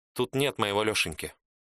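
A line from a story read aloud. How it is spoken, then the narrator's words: Flat colorless tone. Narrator (Russian): сказала Мария бесцветным тоном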